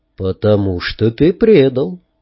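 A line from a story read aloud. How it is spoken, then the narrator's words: Quiet. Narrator (Russian): тихо сказал Арагорн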